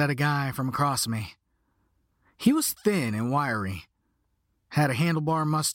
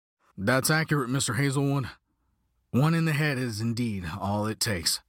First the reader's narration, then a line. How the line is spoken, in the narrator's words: grumbled